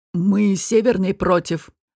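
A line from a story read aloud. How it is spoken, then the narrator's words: Gloomy. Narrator (Russian): мрачно сказал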